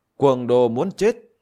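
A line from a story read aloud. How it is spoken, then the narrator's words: Angry demon general. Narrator (Vietnamese): Quỷ tướng thủ quan tức giận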